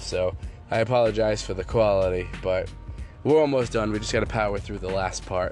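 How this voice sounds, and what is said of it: Sick, strained voice. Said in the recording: “I don't know if you guys can hear it in my voice, but I'm still coming off that strip. So the more I talk, the more it starts to get uh, get aggravated, and the more I start to cough.”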